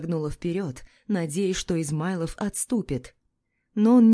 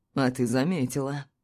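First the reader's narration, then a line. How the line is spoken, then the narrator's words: Pleased snort. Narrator (Russian): Довольно хмыкнул Измайлов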